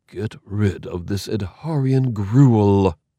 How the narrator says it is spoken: he breathed

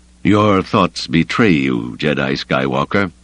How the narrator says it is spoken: he said coldly

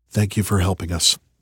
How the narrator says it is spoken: I whispered to Saul

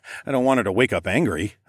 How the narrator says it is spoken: I chuckled

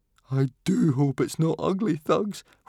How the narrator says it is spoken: whimpered Fishlegs

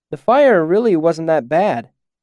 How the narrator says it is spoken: I called out to Denna

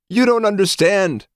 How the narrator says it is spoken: the psychotech pleaded

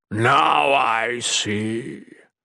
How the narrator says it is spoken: Mikik rumbled

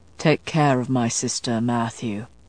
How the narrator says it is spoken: Baldwin said quietly

